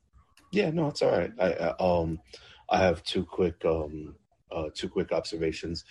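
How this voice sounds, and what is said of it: Tired-sounding voice. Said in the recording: “You sound tired.”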